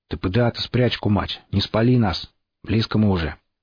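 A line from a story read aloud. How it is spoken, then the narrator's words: Hoarse wheeze. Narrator (Russian): прохрипел один из ведомых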